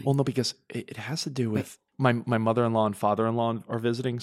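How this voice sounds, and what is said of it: Whispering. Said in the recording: “do you mind if I whisper for a little bit of this?”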